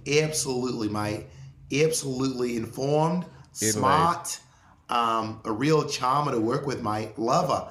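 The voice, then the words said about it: Unconvincing put-on Australian accent. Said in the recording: “are you South African? What is that? ... It's Australian ... Some Australian sound off below, please, because I don't think that's right ... my Australian accent”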